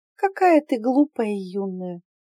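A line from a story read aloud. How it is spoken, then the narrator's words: Sighing stepmother. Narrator (Russian): вздохнула мачеха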